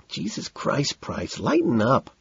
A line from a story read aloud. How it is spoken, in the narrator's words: McDermott whines